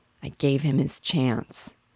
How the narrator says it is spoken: murmured out of the depths of a great sadness

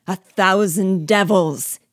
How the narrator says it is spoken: he roared

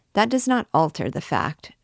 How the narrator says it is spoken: dryly responded Damoiselle Oudard

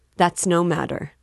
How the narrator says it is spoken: answered coldly

